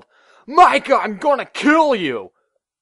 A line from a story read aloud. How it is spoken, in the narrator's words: everyone started screaming and one boy yelled